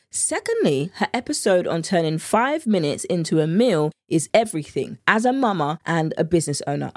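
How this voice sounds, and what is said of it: British accent. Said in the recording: “the British accent in me”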